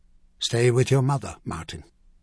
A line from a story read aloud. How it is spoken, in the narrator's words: he said quietly, his voice iron with command